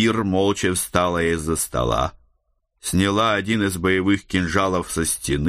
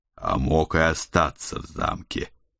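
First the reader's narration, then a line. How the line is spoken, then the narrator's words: Uneasy mutter. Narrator (Russian): пробормотал я, чувствуя предательский холодок от затылка вниз по шее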